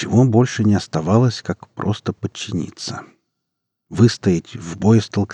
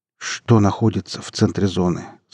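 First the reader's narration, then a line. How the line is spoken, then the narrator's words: Plain. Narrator (Russian): спросил Эдик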